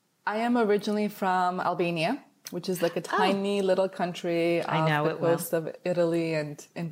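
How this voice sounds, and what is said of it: Foreign accent. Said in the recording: “I know you have an accent.”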